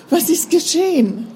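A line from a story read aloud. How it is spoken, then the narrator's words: Startled cry. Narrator (German): rief Resa erschrocken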